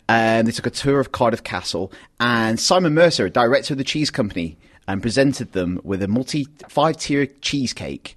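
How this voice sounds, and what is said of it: Accent sounding like Peter Kay. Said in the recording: “I'm not trying to sound like Peter Kay. That's just the accent.”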